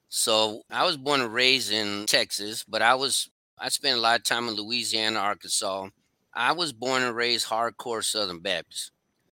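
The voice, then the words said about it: Southern US accent. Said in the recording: “Is that where you got that accent from?”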